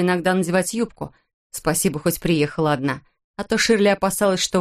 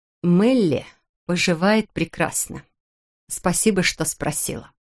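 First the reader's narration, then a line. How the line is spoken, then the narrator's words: Through gritted teeth. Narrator (Russian): процедила Патриция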